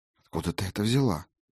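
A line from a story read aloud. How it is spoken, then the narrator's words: Voice dropping to whisper. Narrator (Russian): Голос у нее упал до шепота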